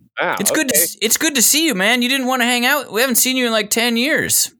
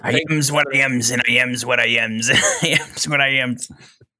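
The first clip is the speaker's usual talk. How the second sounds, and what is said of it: Imitates Popeye cartoon voice. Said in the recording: “Robert Altman's Popeye ... that impression ... I think he's doing the impression.”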